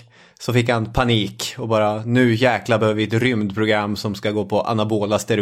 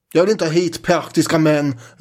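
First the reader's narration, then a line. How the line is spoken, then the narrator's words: Shouting. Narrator (Swedish): ropade Ericsson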